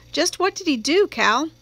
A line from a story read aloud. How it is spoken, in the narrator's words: Calpurnia sighed